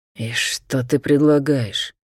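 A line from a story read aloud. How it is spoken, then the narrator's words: Furious hiss. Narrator (Russian): зашипел Шарх, яростно сверкая красными змеиными глазами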